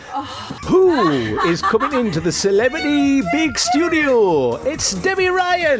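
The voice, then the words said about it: Put-on radio presenter voice. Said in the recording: “you don't normally talk like that ... You've got a radio voice ... your voice changes ... I have my radio voice on”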